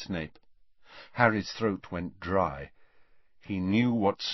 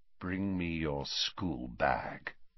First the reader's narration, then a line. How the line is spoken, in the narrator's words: said Snape softly